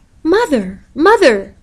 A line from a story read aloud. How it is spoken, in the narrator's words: cried